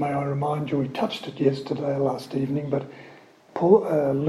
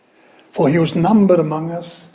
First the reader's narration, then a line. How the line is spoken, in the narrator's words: says Peter